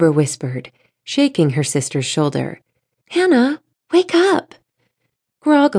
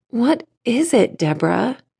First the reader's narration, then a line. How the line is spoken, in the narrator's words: Hannah groaned